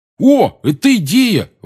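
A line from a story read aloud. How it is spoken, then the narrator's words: Exclaiming. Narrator (Russian): воскликнул Рон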